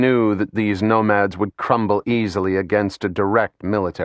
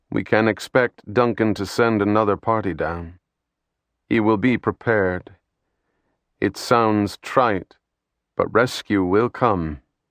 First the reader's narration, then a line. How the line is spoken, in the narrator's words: he said in a low voice